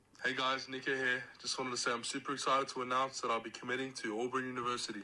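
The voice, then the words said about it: A cool accent. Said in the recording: “You can hear the cool accent, too.”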